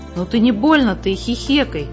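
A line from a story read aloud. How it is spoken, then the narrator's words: Angry interruption. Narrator (Russian): сердито оборвал ее брат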